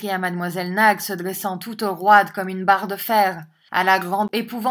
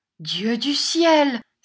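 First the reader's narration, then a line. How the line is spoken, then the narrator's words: Shocked cry. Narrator (French): s'écria Catherine, presque paralysée par la violence avec laquelle le terrible adjectif avait franchi les dents serrées de Mademoiselle Nag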